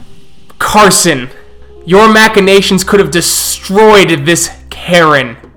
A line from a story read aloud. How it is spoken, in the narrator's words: Malcolm shout out